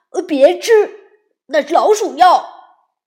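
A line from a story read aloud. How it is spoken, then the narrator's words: Shouting. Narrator (Chinese): 伊诺喊道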